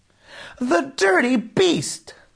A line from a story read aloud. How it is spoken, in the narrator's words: screamed Nora